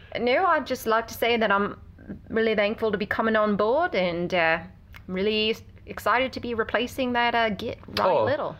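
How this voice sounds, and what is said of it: Poor put-on Australian accent. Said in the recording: “my terrible Australian accent”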